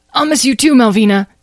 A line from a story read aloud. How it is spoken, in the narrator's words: Tom gasped